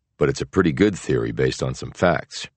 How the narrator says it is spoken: replied Bogart

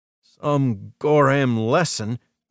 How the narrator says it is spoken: Jamie croaked

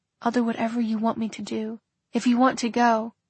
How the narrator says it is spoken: whispered

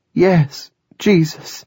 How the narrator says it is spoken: a weeping woman cried

